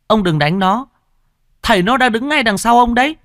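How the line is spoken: Boy shouting. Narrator (Vietnamese): thằng cu kia quát

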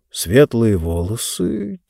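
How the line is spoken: Quiet. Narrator (Russian): тихо проговорил он

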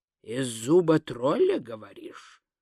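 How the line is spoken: Muttered. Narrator (Russian): пробормотал он

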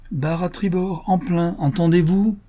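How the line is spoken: Shouted. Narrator (French): cria-t-il à Kéola

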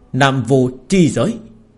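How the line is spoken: Hissing roar. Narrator (Vietnamese): Nam Vô Thánh Đế rít gào

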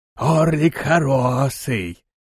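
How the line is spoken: Wheezy. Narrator (Russian): просипела голова

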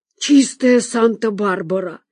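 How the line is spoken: Exclamation. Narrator (Russian): воскликнула Зина

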